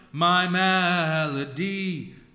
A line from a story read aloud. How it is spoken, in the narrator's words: the echo cried